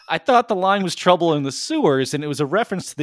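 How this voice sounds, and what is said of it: Strong New York accent. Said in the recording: “you just say that with a really horrific New York accent”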